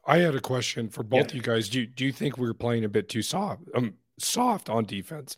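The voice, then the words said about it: Sick-sounding voice. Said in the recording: “I'm a little sick, if you couldn't tell by my voice.”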